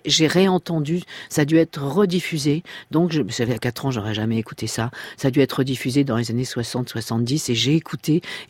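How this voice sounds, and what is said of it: Slight Parisian French accent. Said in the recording (French): “j'avais l'accent parisien, je crois que j'ai toujours un peu l'accent parisien ... Ah, vous l'avez un petit peu, oui.”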